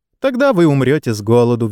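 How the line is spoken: Cheerful. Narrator (Russian): весело проговорил сэр Оливер

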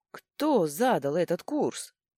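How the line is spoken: Growling. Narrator (Russian): прорычала я

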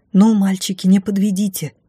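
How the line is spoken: Silent inner plea. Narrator (Russian): мысленно взмолилась я

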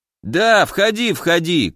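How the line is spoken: Shout. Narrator (Russian): крикнул алхимик

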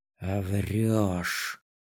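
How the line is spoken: Hissed through teeth, close. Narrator (Russian): Процедила она, склонившись к моему уху

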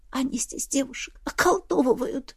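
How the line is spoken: Sobbing. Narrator (Russian): Я всхлипнула, не в силах побороть воспоминания

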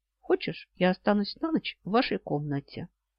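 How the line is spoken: Quiet. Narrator (Russian): тихо сказал

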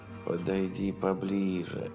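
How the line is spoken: Plain. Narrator (Russian): сказал он эсминцу

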